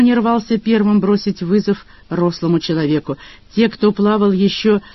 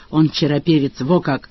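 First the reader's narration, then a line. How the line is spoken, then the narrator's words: Approving crowd grumble. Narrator (Russian): Окружающие утвердительно заворчали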